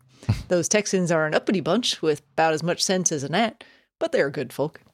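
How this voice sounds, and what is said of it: Attempted Southern US accent. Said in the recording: “I need you to read this in a better Southern accent. ... Not even Southern, but I can give it a try.”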